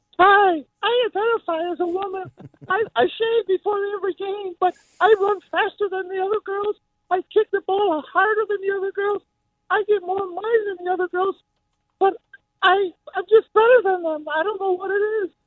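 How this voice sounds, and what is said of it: Jim Carrey's Vera DeMilo impersonation. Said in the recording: “That's a great Vera DeMilo, Jim Carrey impersonation you're doing. Yeah, that's not bad.”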